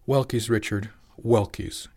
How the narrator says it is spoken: she said, just a bit more sharply than she'd intended

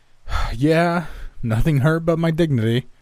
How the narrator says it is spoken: I laughed

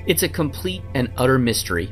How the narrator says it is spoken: With a slight stammer, Gibson said of his friend's death

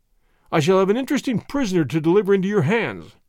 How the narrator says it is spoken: he said with a chuckle

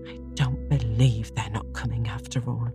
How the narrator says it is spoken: said Marilla crossly

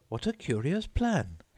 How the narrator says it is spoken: exclaimed Alice

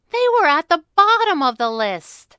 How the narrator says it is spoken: Abigail howled

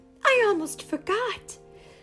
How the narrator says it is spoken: cried Cinderella

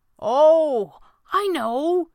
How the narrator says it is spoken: he said excitedly, feeling encouraged

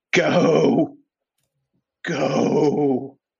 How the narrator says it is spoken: Sid takes the last of his breath and leans over the edge as they're pressing down on top of his back and just weakly screams

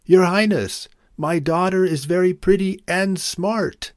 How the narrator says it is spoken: desperately wanting to impress the king, yelled out

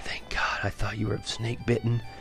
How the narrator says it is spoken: Almost in a whisper, I had heard her say

